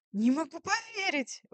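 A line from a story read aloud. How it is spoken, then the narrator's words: Exclaiming. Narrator (Russian): воскликнула я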